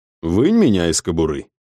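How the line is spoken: Calm. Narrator (Russian): спокойно сказал я

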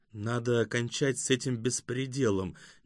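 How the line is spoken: Quiet but emphatic. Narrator (Russian): негромко, но с нажимом сказала Юймэй Синь

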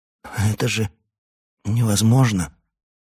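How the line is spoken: Snorting and stuttering. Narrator (Russian): Отфыркиваясь и заикаясь, он произнес

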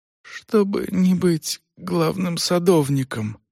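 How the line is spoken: Faint babble. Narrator (Russian): пролепетал Грубер

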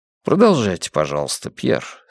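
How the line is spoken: Calm request. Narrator (Russian): спокойно попросил я

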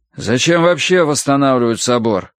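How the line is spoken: Grumbling. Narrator (Russian): ворчал сын

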